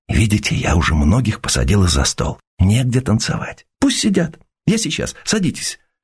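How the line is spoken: Whispered. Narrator (Russian): добавила шепотом

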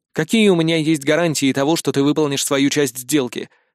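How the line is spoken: Plain. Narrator (Russian): спросил я

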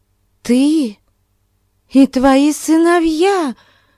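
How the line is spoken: Despairing exclamation. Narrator (Russian): В отчаянии воскликнула тетушка

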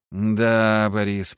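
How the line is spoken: Drawn out. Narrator (Russian): протянул я

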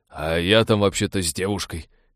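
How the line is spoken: Reproachful grumble. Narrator (Russian): укоризненно проворчал он

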